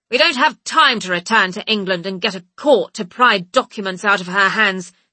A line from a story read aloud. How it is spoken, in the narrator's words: Fitz snaps